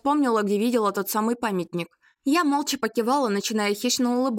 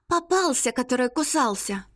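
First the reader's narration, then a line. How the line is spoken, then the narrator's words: Whispered. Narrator (Russian): шепотом сказала Ирка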